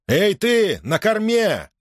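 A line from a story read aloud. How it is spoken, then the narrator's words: Shouted. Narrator (Russian): крикнул Гордон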